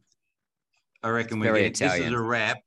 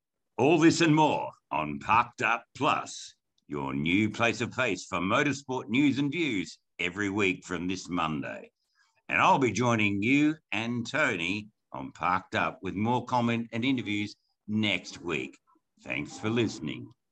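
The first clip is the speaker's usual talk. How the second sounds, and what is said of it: Radio announcer voice. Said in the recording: “I'm going to lapse into my old radio voice.”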